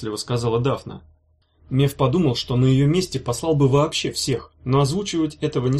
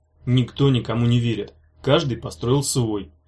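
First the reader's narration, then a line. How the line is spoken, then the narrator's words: Grumbling. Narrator (Russian): проворчал Меф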